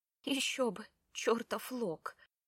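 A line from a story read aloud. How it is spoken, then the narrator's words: Quiet. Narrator (Russian): тихо произнесла она в ответ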